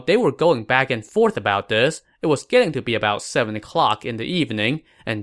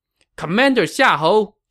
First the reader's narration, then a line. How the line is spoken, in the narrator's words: Jiang Wei shouted